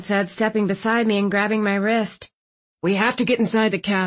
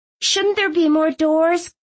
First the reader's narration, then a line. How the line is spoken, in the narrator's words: Clove whined